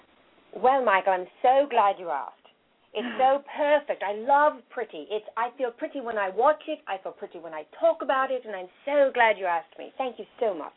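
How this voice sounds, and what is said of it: Put-on British accent. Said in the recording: “give me your best British accent”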